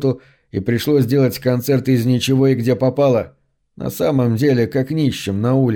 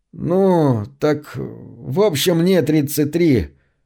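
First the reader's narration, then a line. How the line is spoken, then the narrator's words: Quiet, calm, tired voice. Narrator (Russian): Джордж говорил тихим, спокойным, усталым голосом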